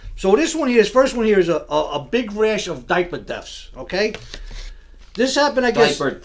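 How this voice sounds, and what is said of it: Slight accent. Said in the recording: “I speak with a little bit of an accent.”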